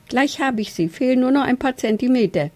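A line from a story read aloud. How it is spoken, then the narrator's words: Gasping. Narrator (German): japste er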